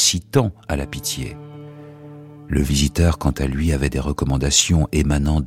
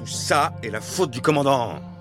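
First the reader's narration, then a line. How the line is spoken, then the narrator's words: Furious shout. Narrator (French): cria l'officier hors de lui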